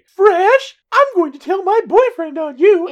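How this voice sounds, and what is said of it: Falsetto girlish voice. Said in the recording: “the falsetto voice... sounded just like a girl... that is my impersonation of you just then.”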